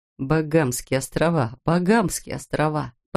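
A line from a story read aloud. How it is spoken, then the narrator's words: Apologetic mutter through laughter. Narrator (Russian): Бормотал он между приступами смеха, как бы извиняясь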